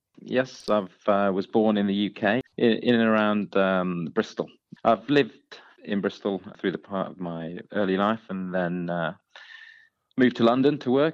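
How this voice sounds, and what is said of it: Slight English accent. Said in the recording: “a hint of a bit of an English accent”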